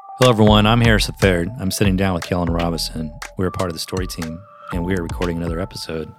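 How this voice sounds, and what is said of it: Flat monotone delivery. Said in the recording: “Why do you sound so monotone?”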